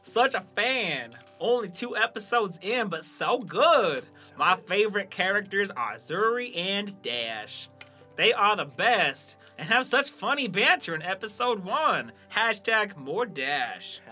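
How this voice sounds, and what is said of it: Put-on Southern American accent. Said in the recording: “That was my Western Southern ... It was like a Southern accent ... So like the Savannah ... It's got to kind of roll off ... Molasses. I'm doing Andy from The Office ... He did that Southern accent”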